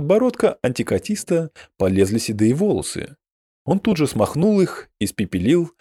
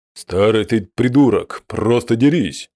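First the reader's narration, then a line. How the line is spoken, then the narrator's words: Growl. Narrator (Russian): прорычал Хаштубал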